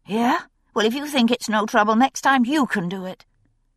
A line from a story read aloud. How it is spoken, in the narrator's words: she snapped